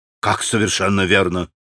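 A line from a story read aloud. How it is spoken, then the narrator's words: Restrained, strained question. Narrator (Russian): переспросил Иван Федорович, с усилием сдерживая себя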